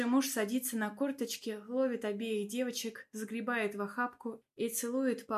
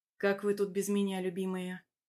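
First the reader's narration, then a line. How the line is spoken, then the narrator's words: Tender whisper. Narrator (Russian): Ласково шепчет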